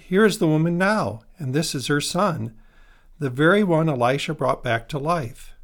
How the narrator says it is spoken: Gehazi exclaimed

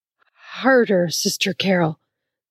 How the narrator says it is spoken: Bill gasped

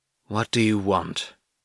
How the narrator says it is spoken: pushed out through gritted teeth

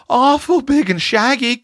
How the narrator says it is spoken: quavered Roxy, clinging to Tilly

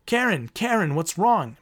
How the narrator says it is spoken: Marin shouted

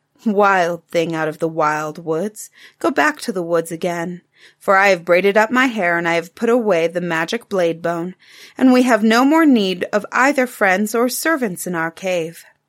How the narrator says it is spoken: The woman laughed and said

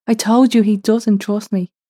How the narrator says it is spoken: Alentra shouted back

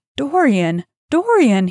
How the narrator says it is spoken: he cried

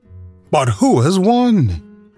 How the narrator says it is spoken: panting and asking

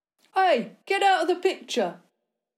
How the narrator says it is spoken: One of the men with cameras shouted

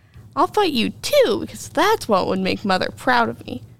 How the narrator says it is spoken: Travis exclaimed

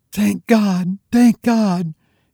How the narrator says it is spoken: cried in the most impassioned accents

